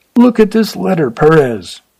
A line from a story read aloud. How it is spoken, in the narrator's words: cried the man